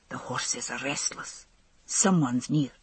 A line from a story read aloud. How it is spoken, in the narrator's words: whispered back